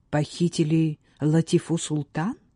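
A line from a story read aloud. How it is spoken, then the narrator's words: Feigned sincere exclamation. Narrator (Russian): воскликнул, надеясь выглядеть искренним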